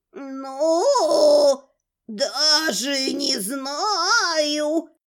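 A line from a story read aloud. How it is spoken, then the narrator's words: Drawling. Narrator (Russian): протянула Марфия Гарыновна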